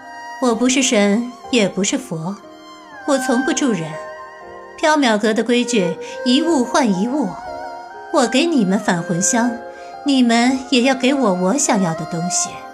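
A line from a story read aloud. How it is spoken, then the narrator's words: Ethereal airy voice. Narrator (Chinese): 白姬的声音飘渺如风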